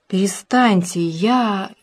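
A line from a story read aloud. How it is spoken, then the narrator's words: Hoarse, shaky, straining. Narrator (Russian): хрипел Егор Иванович, трясясь и силясь подняться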